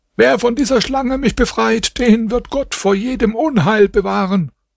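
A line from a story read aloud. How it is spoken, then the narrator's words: Man screaming. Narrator (German): Der Mann schrie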